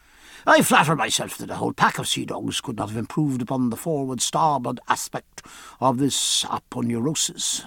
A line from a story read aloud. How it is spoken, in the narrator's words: said Stephen